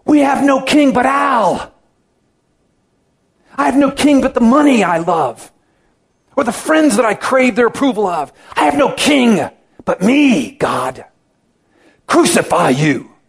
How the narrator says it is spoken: I hear myself shouting

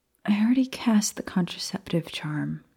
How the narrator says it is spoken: Maya muttered sleepily

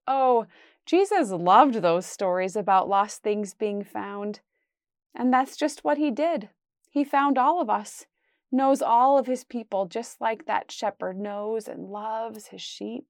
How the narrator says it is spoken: Andrew laughed and said

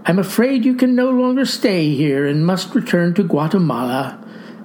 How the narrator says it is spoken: said sadly

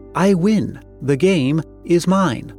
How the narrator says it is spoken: the player exclaimed

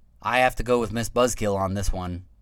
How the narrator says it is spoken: Duke said

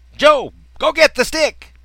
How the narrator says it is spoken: yelled again

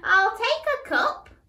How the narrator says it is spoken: she said happily

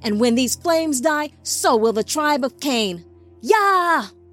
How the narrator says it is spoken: The scouts screamed their rallying cry

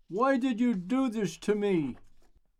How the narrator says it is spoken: Finally, she screamed

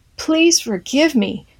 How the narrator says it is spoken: he cried out to God

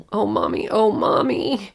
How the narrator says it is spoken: She erupted into full-blown sobs, my blood-soaked, hysterical child

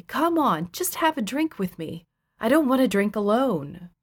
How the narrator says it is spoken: Darren would plead with me

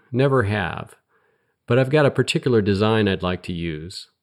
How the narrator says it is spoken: said cheerfully

